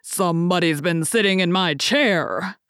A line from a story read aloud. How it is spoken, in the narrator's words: said the great huge bear in his great rough gruff voice